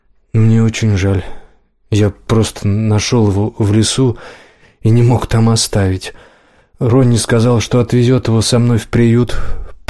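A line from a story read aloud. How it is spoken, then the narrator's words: Mumbled. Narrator (Russian): промямлил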